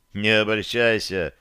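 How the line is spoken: Smirking snort. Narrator (Russian): хмыкнул я

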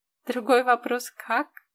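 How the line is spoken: Deep giggle. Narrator (Russian): глубоко хихикнула Маня

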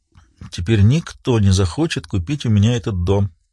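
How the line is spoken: Muttering. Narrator (Russian): пробормотала она

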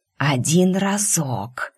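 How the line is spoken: Pleading hiss. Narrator (Russian): умоляюще прошипела

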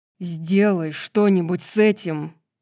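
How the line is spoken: Agitated growl. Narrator (Russian): зарычал Итан, чувствуя, как бешено колотится сердце

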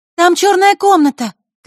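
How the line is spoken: Shout. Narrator (Russian): крикнула Василиса

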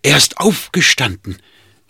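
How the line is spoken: Calling across the street. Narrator (German): rief noch über die Straße ihnen zu

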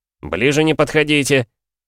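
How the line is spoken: Menacing warning. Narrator (Russian): грозно предупредил голос Рогдая

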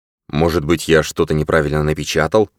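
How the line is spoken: Muttering. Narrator (Russian): пробормотал Крейг

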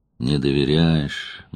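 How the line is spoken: Sad. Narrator (Russian): грустно сказал он

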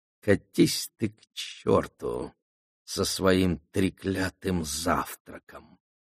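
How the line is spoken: Through gritted teeth. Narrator (Russian): процедила Аламанда

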